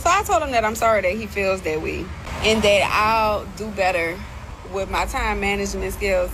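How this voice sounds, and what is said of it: New Orleans accent. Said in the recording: “I love her accent. I said, hey, that New Orleans accent.”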